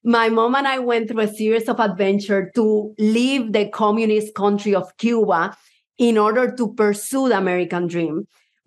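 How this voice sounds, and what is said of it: Puerto Rican Spanish accent. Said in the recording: “I do have an accent ... my accent is Puerto Rican”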